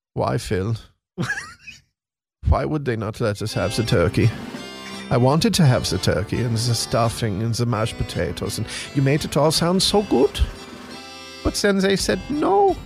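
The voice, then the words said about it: German accent impression. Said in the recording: “your German impression”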